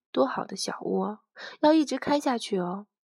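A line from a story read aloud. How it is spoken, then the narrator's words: Soft, self-pitying. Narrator (Chinese): 兜兜轻轻地笑了一声，自顾自怜的轻声说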